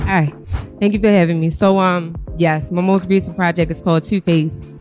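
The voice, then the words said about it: Out of breath, breathless speech. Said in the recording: “I'm a little out of breath now.”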